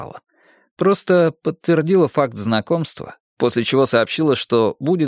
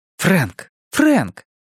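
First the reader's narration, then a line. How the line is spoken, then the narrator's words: Exclaimed. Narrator (Russian): воскликнула она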